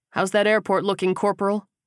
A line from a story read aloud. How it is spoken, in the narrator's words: Kersey asked